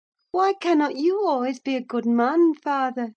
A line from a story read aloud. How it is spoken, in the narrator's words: she turned her face up to his, and laughed, and answered